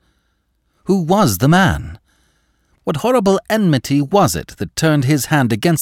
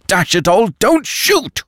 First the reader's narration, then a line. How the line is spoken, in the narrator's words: roared Lupin